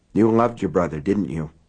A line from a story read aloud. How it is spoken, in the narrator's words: Alan said hoarsely